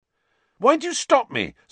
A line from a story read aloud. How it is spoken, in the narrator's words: said Ron angrily